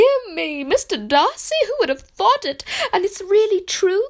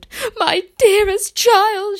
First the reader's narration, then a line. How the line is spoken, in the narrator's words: she cried